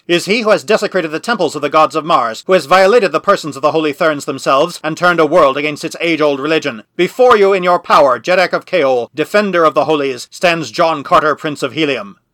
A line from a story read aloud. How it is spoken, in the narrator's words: cried